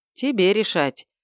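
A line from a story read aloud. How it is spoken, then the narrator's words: Sighing brother. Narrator (Russian): вздохнул брат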